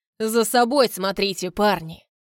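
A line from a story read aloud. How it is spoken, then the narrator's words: Wry snort. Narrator (Russian): хмыкнул Вагит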